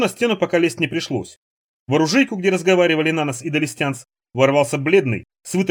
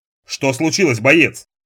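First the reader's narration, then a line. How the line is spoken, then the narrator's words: Stern question. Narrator (Russian): строго спросил Далестянц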